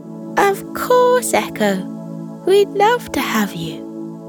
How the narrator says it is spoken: they exclaimed

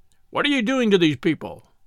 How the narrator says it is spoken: The gentleman said sharply

